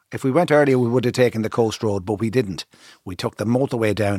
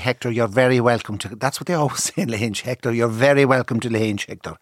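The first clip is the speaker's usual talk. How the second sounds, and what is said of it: Put-on Clare Irish accent. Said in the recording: “the Clare accent came over me”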